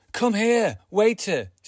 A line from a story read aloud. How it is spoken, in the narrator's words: she yelled